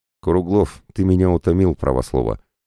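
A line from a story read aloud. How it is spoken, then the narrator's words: Irritated snort. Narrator (Russian): Жанна раздраженно фыркнула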